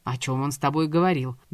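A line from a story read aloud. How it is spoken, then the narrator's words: Menacing. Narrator (Russian): грозно произнес Давид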